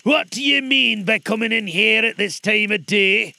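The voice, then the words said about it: Gruff growling Scrooge voice. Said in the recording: “growled Scrooge in his accustomed voice, as near as he could feign it.”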